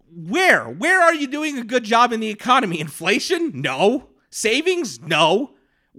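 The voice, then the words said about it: Yelling, loud angry voice. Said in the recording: “I'm yelling a lot in this episode”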